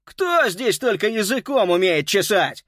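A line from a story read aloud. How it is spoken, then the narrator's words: Angry shout. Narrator (Russian): сердито крикнул он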